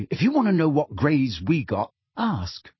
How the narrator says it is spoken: said Ron sharply

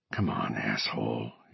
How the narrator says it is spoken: he muttered

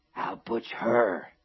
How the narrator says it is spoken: she had whispered hoarsely

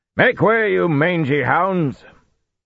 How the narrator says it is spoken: Gallien roared

